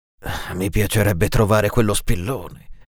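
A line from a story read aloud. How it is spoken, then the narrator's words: Sighing. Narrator (Italian): si limitò a sospirare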